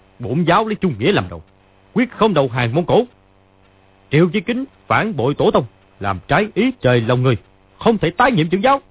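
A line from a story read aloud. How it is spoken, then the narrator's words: Shouted. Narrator (Vietnamese): Lý Chí Thường quát lên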